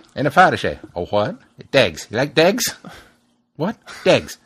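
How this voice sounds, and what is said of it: Thick, hard-to-understand traveller accent. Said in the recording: “how thick and hard it is to understand him ... It's not Irish ... It's not English. It's not Irish. It's just pikey.”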